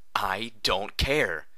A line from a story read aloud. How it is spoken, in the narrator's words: I shouted crossly